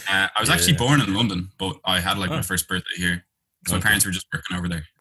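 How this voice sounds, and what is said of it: Irish accent. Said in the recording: “I'm getting an accent there ... Irish accent.”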